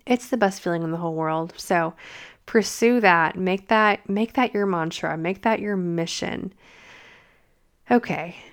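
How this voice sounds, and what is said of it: Strained, fading voice. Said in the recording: “my voice is going away, as you can probably tell”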